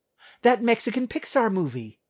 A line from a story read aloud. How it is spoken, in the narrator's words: exclaimed Natalie